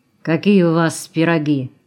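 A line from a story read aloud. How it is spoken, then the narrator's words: Wolf's gloomy question. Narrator (Russian): мрачно спросил Волк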